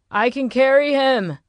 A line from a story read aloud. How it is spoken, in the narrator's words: shouted